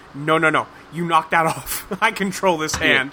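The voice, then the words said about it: Put-on German accent. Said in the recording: “What is this accent? ... German. ... It's German. ... It's a German accent.”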